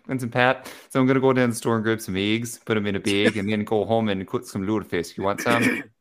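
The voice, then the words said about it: Put-on Minnesotan / Upper Midwest accent. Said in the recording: “My go-to has been the Minnesotan accent, but it's like mix of like Wisconsin, Minnesotan, and then a little bit of Fargo in there ... And a little bit of Sarah Palin”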